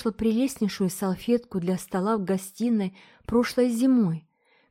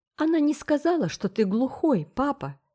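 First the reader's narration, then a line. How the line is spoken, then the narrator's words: Exclaiming. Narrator (Russian): воскликнула Трикси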